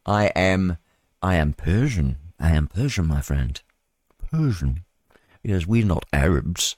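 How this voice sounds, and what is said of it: Put-on English accent. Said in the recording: “with an English accent.”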